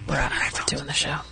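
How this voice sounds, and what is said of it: Whispering. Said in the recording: “Why is everybody whispering?”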